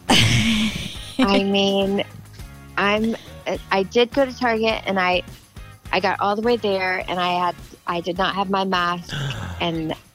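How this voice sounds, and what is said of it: Sounds sick, congested voice. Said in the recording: “are you sick? You sound sick.”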